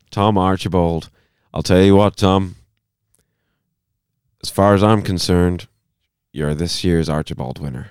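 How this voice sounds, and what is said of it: Put-on Irish accent. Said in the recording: “I'm getting Line of Duty Hastings vibes. ... the Irish accent”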